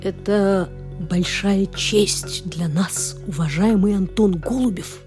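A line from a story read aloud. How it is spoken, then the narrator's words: Mysterious whisper. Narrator (Russian): зашептал он таинственно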